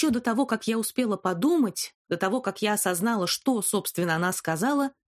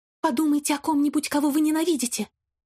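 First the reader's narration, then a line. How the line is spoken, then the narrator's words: Quick, quiet squeak. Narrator (Russian): мать произнесла быстро и тихо, словно пискнула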